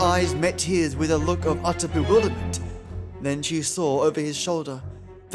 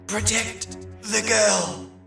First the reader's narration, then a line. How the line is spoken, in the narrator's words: he managed to wheeze out despite the hold on his neck